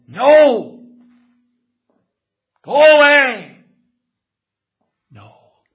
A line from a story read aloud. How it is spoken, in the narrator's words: he shouted out